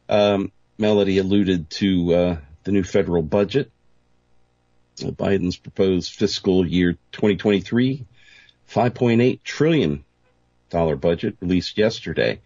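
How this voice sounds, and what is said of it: Voice affected by a cold. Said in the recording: “Excuse my voice. First cold of the new year”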